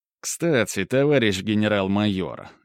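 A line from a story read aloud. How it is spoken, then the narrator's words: Snide tone. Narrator (Russian): ехидным тоном произнес он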